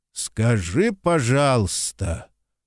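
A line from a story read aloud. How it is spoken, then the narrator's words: Through gritted teeth. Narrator (Russian): сквозь зубы процедил Некрасов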